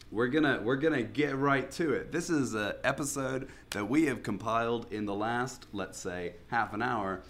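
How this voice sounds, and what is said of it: Sick, slightly off-sounding voice. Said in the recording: “I'm a little bit ill, so my voice is going to be a bit weird on this one”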